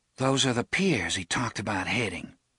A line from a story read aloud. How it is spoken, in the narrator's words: Susanna murmured